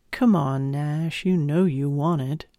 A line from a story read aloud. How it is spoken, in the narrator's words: purred in my ear